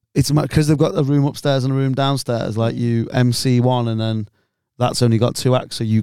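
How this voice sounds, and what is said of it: Strained, hoarse, worn-out voice. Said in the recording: “My voice is going ... It was really fucked my voice up”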